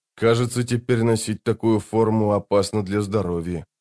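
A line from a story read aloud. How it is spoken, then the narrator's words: Muttering. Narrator (Russian): пробормотал он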